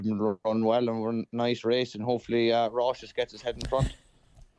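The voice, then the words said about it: Irish accent. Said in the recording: “you just love an Irish accent ... Isn't it great, the Irish accent?”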